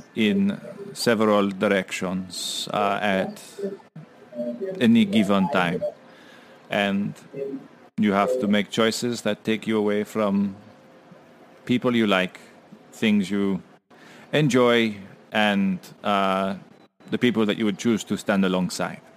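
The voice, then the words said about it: Put-on French accent. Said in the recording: “I'm losing the French accent.”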